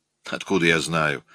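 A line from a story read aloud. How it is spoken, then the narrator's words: Rude answer. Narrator (Russian): грубо ответил Эллиот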